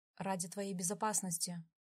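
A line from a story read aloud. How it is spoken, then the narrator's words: Sighing reply. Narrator (Russian): вздохнув, ответил он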